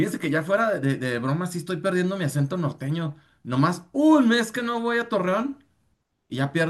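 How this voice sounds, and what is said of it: Usual voice. Nothing is said of it.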